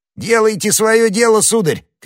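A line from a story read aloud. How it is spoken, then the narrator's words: Shouting. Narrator (Russian): крикнул Планше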